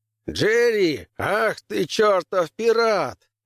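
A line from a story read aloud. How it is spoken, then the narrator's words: Hearty roar. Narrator (Russian): взревел адмирал Уильямс, крепкий и коренастый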